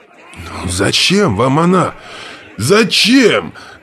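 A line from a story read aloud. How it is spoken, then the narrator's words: Desperate shout. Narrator (Russian): в отчаянии закричал руководитель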